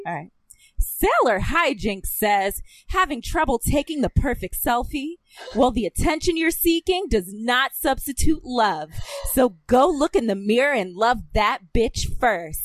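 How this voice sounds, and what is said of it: Dramatic anime character voice. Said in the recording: “in my best Usagi voice ... that was really dramatic”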